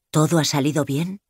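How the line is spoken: Anxious question. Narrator (Spanish): pregunta en tono de ansiedad

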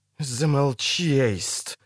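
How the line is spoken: Furious hiss. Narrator (Russian): яростно прошипела королева

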